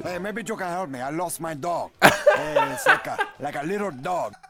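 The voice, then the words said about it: Impression of a movie gangster's accent. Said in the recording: “some guy imitating Tony Montana ... some guy doing a Tony Montana accent ... his best Al Pacino impression”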